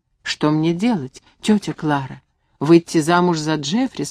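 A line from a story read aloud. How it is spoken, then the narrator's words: Plain. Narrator (Russian): спросила она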